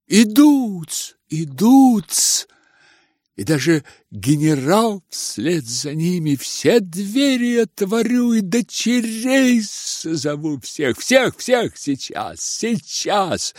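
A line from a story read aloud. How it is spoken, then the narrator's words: Frightened whisper. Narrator (Russian): Испуганно шептал Лебедев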